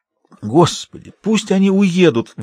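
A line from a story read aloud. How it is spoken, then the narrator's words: Pleading prayer. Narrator (Russian): взмолился он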